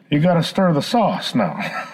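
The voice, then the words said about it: Poor Hank Hill impression. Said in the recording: “terrible Hank Hill impersonation”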